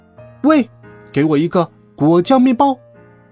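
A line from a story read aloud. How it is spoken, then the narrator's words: Rude blurted shout. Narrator (Chinese): 银吉丝毫不顾及长长的队伍中的其他顾客，张口就喊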